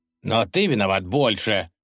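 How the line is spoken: Stern concluding remark. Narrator (Russian): закончил государь, строго глядя на Юлия

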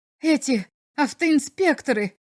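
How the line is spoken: Exclaimed. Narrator (Russian): воскликнул посетитель

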